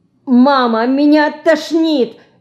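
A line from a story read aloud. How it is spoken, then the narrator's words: Frightened, faint cry. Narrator (Russian): испуганно крикнула она, почти теряя сознание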